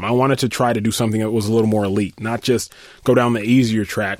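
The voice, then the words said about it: Sick-sounding voice. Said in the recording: “I was sick, and still am, as you can probably hear it in my voice. ... Just a little bit.”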